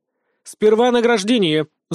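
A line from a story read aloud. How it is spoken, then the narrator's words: Angry bark. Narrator (Russian): злобно рявкнула Мавра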